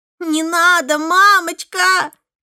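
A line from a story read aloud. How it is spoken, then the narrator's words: Screaming while struggling. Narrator (Russian): кричал он, отбиваясь от меня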